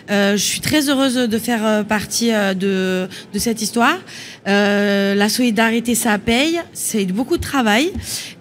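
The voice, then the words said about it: Sing-song regional French accent. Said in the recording (French): “cet accent chantant”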